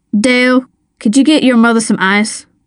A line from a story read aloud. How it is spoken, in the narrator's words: asked